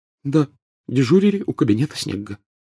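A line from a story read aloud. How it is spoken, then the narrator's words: Tearful whisper. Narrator (Russian): прошептала Гермиона, на глазах которой поблескивали слезы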